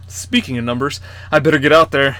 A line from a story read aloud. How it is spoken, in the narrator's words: Jeff said